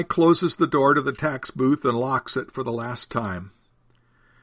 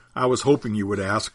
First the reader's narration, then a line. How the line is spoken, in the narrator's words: chuckles Jesus